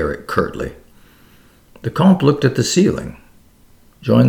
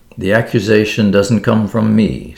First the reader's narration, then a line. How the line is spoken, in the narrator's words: said Derrick coldly